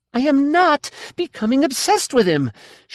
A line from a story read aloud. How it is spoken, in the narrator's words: she shouted